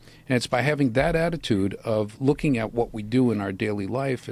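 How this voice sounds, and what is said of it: Usual voice. Nothing is said of it.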